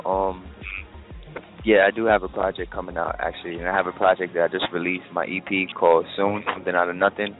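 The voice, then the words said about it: Quiet, low, monotone voice. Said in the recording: “I'm talking so low, and I sound like kind of like monotone, but I'm in Starbucks”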